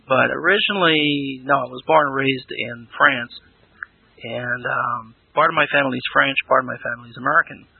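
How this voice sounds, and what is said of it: Interesting accent. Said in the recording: “You have a interesting accent.”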